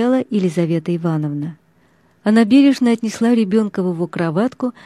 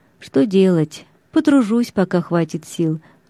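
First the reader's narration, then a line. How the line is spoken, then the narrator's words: Sigh. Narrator (Russian): вздохнул Иван Алексеевич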